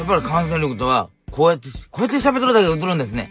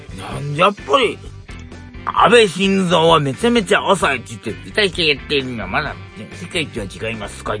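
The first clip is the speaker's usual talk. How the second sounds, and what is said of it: Imitates another person's voice. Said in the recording (Japanese): “モノマネをちょっと入れたってこと ... 総理の真似したんですよ ... 全然何言ってるかわかんないし”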